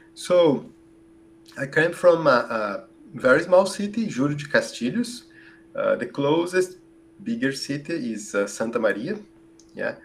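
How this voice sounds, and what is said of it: Brazilian accent in English. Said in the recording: “your Brazilian accent”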